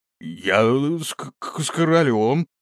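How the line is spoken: Stammering reply. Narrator (Russian): запинаясь, ответил он

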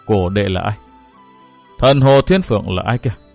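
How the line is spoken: Muttered. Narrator (Vietnamese): Vừa lẩm bẩm

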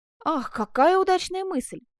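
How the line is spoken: Exclaiming. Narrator (Russian): воскликнул он

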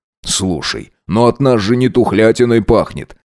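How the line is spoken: Snorting. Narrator (Russian): Хмыкнул Макс

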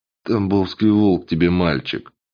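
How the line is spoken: Gruff grumble. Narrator (Russian): буркнул стрелок

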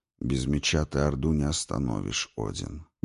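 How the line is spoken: Flat colorless voice. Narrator (Russian): бесцветным голосом произнес Горджелин

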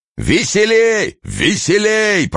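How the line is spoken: Clear-voiced shout. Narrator (Russian): прочищенным голосом кричал Мышлаевский

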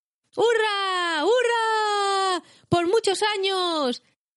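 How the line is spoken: Joyful group shouting. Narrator (Spanish): gritaron los hobbits alegremente

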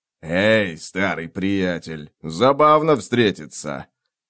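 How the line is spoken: Snorting. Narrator (Russian): Человек с ножом фыркнул

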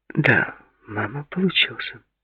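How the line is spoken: Sad. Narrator (Russian): печально сказала Линда

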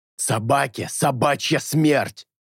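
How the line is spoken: Hissing raven. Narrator (Russian): прошипел ворон

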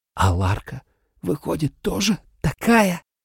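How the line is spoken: Terrified hissing whisper. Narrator (Russian): свистящим от ужаса шепотом

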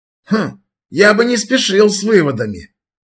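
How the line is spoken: Skeptical snort. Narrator (Russian): хмыкнул Макрушин

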